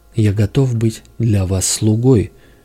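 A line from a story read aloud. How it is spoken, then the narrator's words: Doctor's exclamation. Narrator (Russian): воскликнул доктор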